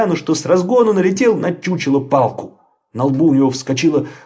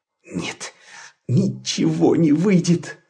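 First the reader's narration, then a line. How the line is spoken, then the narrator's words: Groaning. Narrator (Russian): застонал он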